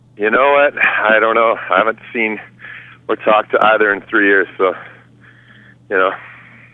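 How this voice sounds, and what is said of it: Out of breath. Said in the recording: “I'm out of breath. I'm walking down Queen Street here.”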